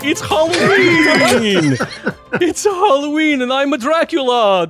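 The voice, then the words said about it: Dracula character voice. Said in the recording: “Don't I sound like a Dracula? ... doing a Dracula impression”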